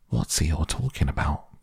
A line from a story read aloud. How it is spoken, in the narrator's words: Piglet whispered to Pooh